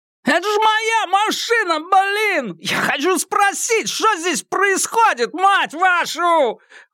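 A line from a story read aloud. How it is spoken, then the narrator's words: Yelling. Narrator (Russian): вопил Бандан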